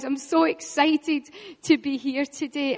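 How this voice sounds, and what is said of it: Excited, energetic voice. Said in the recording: “I'm so excited. Can you hear it in my voice?”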